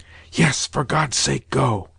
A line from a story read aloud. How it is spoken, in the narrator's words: whispered a second voice